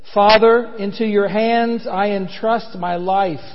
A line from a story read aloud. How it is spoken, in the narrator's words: crying out in a loud voice, Jesus said